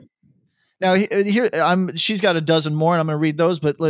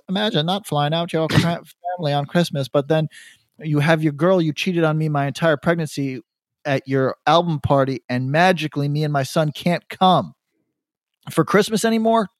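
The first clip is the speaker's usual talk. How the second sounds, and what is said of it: Imitates another person's voice. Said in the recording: “Should I do her voice?”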